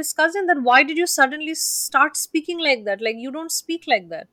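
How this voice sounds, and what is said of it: Strong Indian English accent. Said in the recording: “my very Indian accent”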